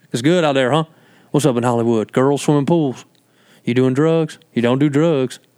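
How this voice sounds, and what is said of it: Imitated North Carolina accent. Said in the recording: “my dad's from North Carolina ... Those are fun accents ... That's how the family talks”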